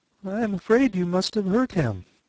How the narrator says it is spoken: she said in a trembling voice

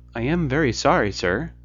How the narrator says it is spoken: said Bob

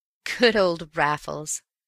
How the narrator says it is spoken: I chuckled

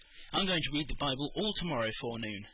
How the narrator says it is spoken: said Peter

